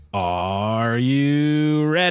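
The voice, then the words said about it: Poor impression of theme song intro. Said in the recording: “I figured I'd do a shitty impression of it off the top as well”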